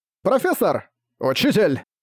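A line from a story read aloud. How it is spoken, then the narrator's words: Shouting in unison. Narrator (Russian): Закричав в унисон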